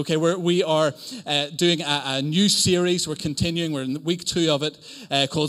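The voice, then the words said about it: Northern Irish accent. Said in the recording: “something really Northern Irish ... I am from Northern Ireland ... the odd Northern Irishism”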